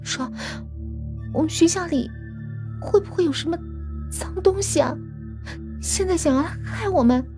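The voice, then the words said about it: Trembling, shaky frightened voice. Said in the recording (Chinese): “用发抖的声音说”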